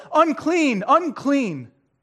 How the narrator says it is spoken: yell

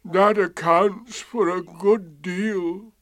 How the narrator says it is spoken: said Eeyore gloomily

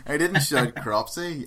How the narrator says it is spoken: I shouted

